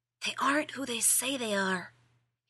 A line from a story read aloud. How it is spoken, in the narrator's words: he hissed, gesticulating wildly